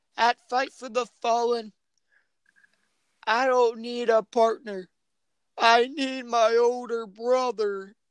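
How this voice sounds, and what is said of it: Bad impression of Cody. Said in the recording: “that was a bad impression”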